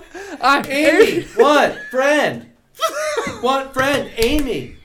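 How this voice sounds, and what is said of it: Monkey character voice. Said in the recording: “Do the Amy from Congo. ... you gotta do an impression. ... Amy from Congo. The fucking monkey.”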